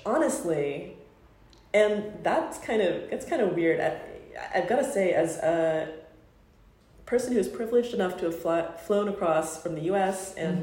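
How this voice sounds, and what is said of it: American accent. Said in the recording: “Me and my United States accent.”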